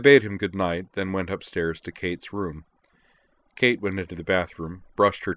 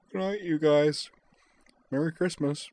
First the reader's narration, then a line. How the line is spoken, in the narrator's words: said sleepily